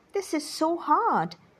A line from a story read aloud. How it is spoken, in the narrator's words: exclaimed Wilbur